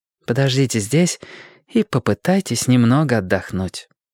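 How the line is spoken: Soft, gentle. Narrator (Russian): мягко сказала она

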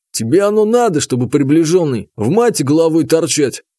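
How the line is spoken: Relaxed snort. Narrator (Russian): хмыкнул один из борцов, видимо, расслабившись

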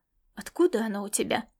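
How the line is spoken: Calm question. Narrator (Russian): спокойно поинтересовался он

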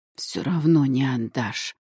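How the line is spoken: Strained hoarse rasp. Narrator (Russian): через силу прохрипела я

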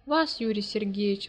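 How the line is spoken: Exclaiming. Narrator (Russian): воскликнула Наташа

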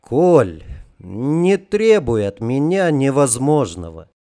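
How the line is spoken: Sincerely sad sigh. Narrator (Russian): печально вздохнул Жарко, и печаль не была комичным прикрытием

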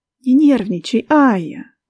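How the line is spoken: Gentle, affectionate advice. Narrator (Russian): ласково посоветовала она мне

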